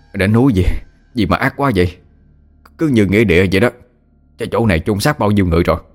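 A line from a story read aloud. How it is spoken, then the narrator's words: Panting. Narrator (Vietnamese): Tên quỷ lùng thở hổn hển nói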